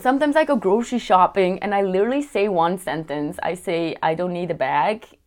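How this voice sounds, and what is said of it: Strong European accent in English. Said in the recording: “my accent is always gonna show that I'm not a local ... I do have an accent ... that's how strong my accent is ... European”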